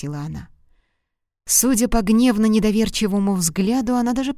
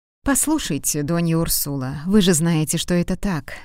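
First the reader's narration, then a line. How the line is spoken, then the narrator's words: Calm. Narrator (Russian): спокойно сказал он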